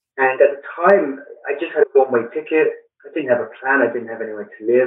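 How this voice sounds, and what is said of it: British London accent. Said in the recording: “As you can tell with the accent, I grew up in London in the United Kingdom”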